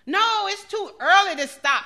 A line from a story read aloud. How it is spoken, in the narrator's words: shouted one of the brothers